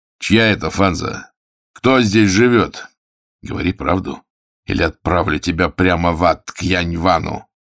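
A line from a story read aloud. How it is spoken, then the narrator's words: Menacing question. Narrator (Russian): грозно сверкнув глазами, спросил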